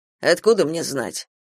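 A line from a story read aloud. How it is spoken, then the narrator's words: Irritated grumble. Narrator (Russian): буркнул Патрик, но тотчас же устыдился своего раздраженного тона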